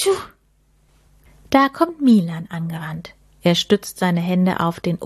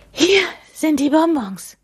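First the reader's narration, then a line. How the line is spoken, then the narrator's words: Panting. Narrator (German): keucht er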